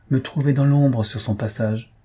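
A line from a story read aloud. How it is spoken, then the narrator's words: Sighing. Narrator (French): dis-je en soupirant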